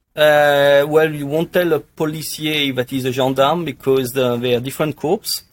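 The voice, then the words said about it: French accent. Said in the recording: “some people listening are going to love your accent ... almost a French gendarme”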